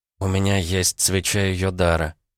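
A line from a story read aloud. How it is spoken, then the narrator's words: Quiet reply. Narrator (Russian): тихо ответила Варвара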